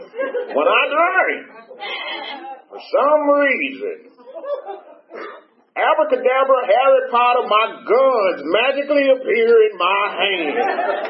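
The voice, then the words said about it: Imitates an old man's voice. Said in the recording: “I'm trying to do my best impression of his voice.”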